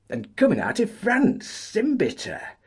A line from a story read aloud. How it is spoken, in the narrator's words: cried Chris